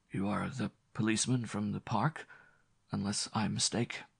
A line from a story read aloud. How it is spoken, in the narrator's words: he asked feebly, with mingled pomposity and resentment